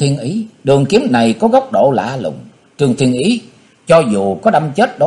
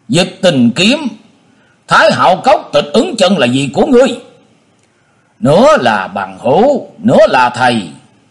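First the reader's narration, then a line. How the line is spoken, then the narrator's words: Stern shout. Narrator (Vietnamese): Trương Thiên Ý bỗng tung người nhảy ra, nghiêm giọng quát lên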